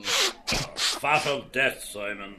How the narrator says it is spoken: Ben Dollard growled

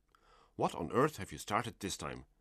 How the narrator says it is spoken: my father is said to have muttered

